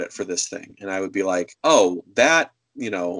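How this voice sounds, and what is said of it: Usual voice. Nothing is said of it.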